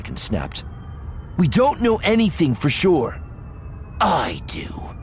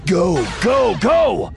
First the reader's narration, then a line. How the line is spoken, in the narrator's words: Voss shouted